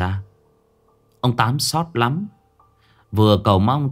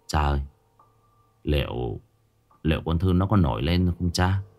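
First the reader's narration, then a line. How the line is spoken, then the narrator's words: Quiet voice. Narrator (Vietnamese): Anh con trai ông Tám nhỏ giọng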